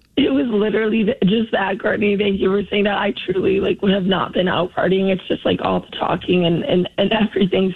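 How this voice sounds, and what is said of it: Hoarse, nearly lost voice. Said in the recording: “I lost my voice ... your voice sounds that way”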